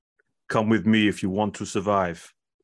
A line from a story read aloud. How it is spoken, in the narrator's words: said in a deep Austrian accent